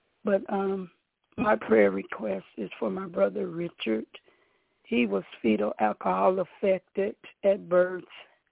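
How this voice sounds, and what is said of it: Hoarse voice. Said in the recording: “I'm sorry. I've been hoarse for about 2 weeks now.”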